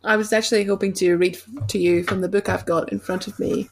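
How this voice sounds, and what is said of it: Usual voice. Nothing is said of it.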